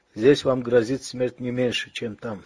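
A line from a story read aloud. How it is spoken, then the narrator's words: Plain. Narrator (Russian): сказал тот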